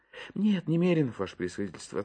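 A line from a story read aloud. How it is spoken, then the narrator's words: Guilty sighing answer. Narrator (Russian): ответил Иван Евсеич и виновато вздохнул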